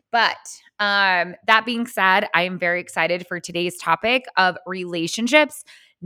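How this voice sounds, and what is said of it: Crackly, squeaky recovering voice. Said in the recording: “I lost my voice last week, and I am a little bit excited that it's starting to come back. So forgive me if I have some crackiness or some squeakiness. My vocal cords are warming back up.”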